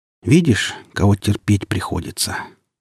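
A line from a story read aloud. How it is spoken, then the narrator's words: Weary question. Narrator (Russian): устало спросил Алешка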